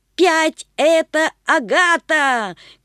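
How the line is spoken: Grandmother shouting. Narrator (Russian): кричала Светкина бабушка

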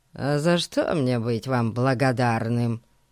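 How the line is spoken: Grumble. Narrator (Russian): пробурчал Эрн

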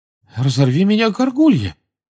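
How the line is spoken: Amazed exclamation. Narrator (Russian): изумленно воскликнул мистер Уизли

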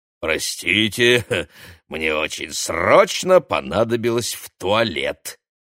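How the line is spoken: Nasty giggling. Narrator (Russian): противно хихикнув, объяснил бородач

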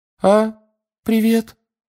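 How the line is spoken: Unusually high voice. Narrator (Russian): сказал непривычно высоким голосом

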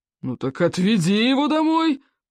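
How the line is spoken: Growled. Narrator (Russian): прорычал Стоек

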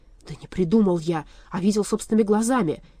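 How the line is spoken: Angry objection. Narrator (Russian): сердито возразил Вольп

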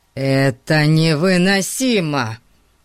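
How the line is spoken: Groaning. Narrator (Russian): простонал Фати

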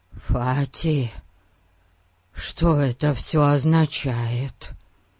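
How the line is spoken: Frightened question. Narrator (Russian): Испуганно спросил Эрн

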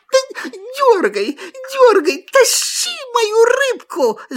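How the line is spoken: Fox shouting. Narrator (Russian): закричала лиса

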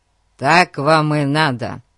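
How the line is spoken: Ruthless. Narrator (Russian): безжалостно сказал Фати

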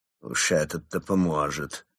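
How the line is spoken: Quiet but audible mutter. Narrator (Russian): Тихо, но так, чтобы все слышали, пробурчал Крот

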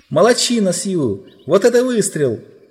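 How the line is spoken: Group of kids shouting. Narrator (Russian): закричали ребята

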